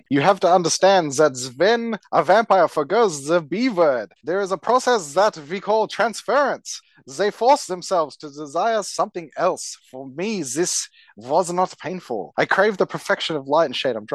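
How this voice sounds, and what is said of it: Campy vampire accent. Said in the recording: “I'm going to do a campy vampire accent.”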